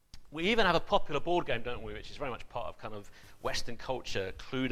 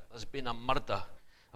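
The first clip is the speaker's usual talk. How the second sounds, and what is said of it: Poor put-on Scottish accent. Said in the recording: “Apologies to the Scots present for murdering that accent.”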